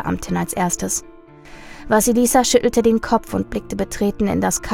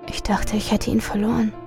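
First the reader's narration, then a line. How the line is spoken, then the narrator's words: Soft. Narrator (German): sagte leise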